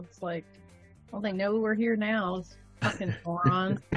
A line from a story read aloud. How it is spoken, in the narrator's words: mutter to myself